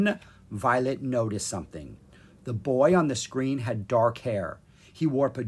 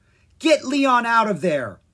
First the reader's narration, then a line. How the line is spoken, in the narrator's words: Violet yelled at Jolt